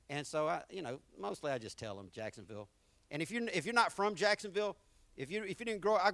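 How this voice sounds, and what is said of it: Southern American accent. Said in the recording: “people want to know about my accent everywhere I go. Where are you from? Man, you sound so Southern. ... where you get that country”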